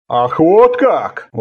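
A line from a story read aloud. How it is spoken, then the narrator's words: Exclaimed. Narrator (Russian): воскликнул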